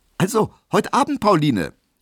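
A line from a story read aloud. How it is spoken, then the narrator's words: Called out. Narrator (German): rief er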